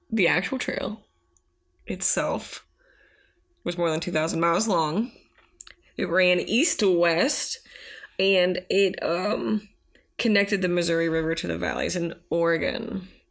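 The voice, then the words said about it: Teacher reading-to-students voice. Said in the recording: “you put on your teacher voice, please? please read us.”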